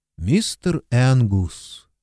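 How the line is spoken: Even, level voice. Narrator (Russian): ровным голосом сказала она

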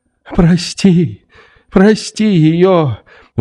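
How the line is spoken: Sobbing exclamation. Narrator (Russian): восклицала, рыдая, Анна Андреевна

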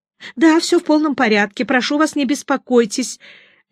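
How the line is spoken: Babbling. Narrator (Russian): лепетала Елена

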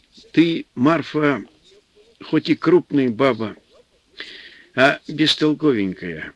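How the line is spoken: Affectionate, good-humored. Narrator (Russian): В минуты хорошего настроения, Антип ласково говорил жене

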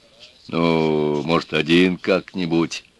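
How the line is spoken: Timid request. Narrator (Russian): робко попросил он

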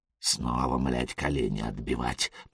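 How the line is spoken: Whisper. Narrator (Russian): прошептал Элис

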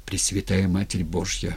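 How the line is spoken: Terrified whisper. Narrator (Russian): шептал набравшийся смертного страха Никита Скрипицын

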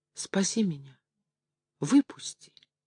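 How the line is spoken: Pleading voice. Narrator (Russian): она сказала умоляющим голосом

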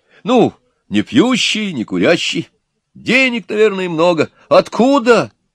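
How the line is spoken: Exclaiming. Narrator (Russian): воскликнула Нюра

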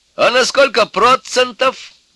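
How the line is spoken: Cheerful young man shouting. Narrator (Russian): опять выкрикнул веселый молодой человек, не злой

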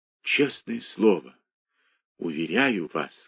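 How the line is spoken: Quiet. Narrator (Russian): сказал он тихо

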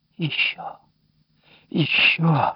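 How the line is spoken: Whispering. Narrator (Russian): шептал он

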